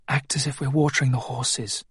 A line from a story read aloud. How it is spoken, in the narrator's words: he whispered to Clara and Will